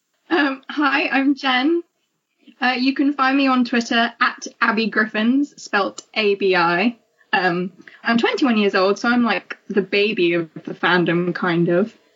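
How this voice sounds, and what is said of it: English accent. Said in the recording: “I'm from England, obviously, as you can tell from my accent.”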